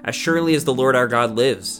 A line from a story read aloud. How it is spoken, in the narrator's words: she replied